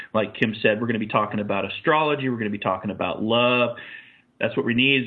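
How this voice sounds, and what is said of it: Hoarse, fading voice. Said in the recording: “as I'm losing my voice here”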